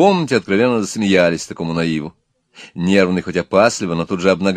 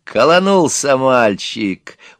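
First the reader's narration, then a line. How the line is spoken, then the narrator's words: Thug laughing gleefully. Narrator (Russian): урка радостно засмеялся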